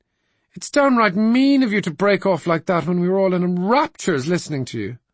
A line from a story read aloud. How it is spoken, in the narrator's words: cried Mary Jane